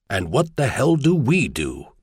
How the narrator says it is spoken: Mardai Saigon asked himself harshly

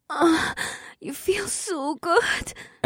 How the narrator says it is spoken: Amber murmured through the kiss in a choked voice

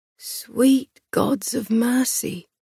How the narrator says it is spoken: someone murmured

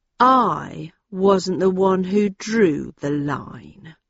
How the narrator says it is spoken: he said in a low, controlled voice

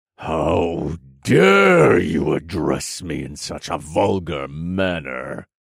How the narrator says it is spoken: the dragon's enraged voice boomed inside my head, and an ear-splitting, ringing sound followed the telepathic communication

